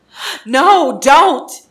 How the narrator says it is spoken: Gon yells

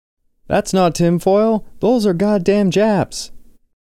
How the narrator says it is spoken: a third person screamed

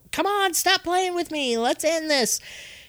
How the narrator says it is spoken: she just screams out into the ether

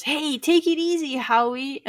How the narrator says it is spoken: Billings yells

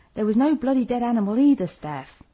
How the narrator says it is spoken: shouted up

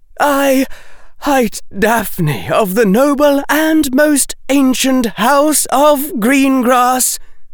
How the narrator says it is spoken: she cried

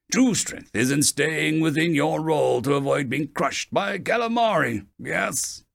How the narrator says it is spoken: Olenk chuckled

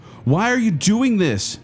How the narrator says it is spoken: Doreen screamed

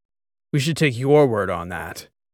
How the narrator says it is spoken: Fieldstone said, snorting a doubtful laugh

